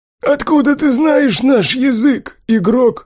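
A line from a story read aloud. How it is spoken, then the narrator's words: Hoarse calm goblin question. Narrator (Russian): Хрипло, но достаточно спокойно спросил гоблин, без вызова, лишней лести или же четко выраженного страха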